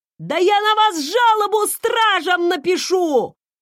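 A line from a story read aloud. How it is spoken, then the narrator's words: Yelling. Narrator (Russian): заорал Арнольд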